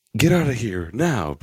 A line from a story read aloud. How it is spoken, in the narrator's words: Brutaka shouted to Matora